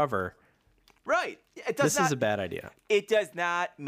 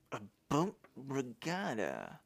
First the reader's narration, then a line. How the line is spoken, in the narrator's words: Joe murmured